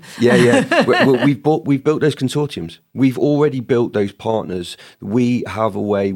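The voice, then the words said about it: British accent. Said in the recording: “the UK is the place ... Tell those, by your accent”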